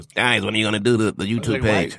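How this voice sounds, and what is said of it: Exaggerated white guy voice impression. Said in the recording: “doing a Dave voice ... the Eddie Murphy white guy voice”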